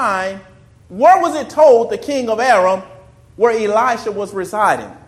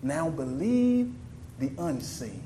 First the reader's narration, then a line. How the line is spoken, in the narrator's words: Elisha was able to whisper